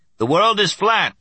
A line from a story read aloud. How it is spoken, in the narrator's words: He shouted